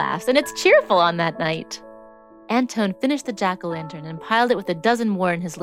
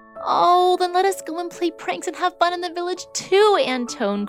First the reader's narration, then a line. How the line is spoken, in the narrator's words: cried Babette